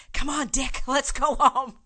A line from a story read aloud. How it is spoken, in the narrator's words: the fourth mother whispered